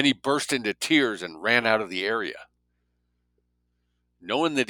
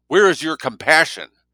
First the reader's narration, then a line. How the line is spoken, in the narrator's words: Trembling with rage, Seth shouted